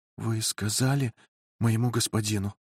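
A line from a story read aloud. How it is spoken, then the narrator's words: Frightened whisper. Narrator (Russian): испуганно ... прошептала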